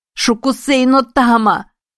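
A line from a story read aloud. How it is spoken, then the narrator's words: Mental shout. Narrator (Russian): кричала Эми мысленно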